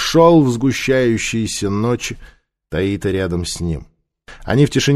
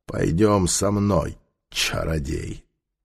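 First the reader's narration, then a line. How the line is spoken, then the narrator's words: Satisfied grumble. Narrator (Russian): он удовлетворенно проворчал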